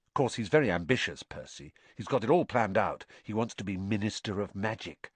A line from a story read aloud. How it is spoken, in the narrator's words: Ron told Harry and Hermione in an undertone